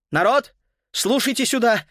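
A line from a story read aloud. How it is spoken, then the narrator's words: Trembling voice, shouted. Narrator (Russian): дрожащим голосом прокричал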